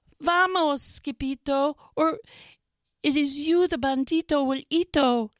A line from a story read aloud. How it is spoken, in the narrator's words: they cried